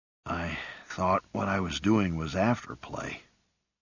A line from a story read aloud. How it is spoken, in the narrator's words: whispered a little hoarsely